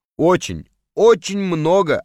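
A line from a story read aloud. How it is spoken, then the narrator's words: Plain. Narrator (Russian): ответил Мухаммед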